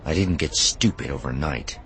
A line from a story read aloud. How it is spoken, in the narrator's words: she muttered